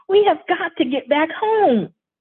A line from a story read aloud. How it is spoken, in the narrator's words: Karen scream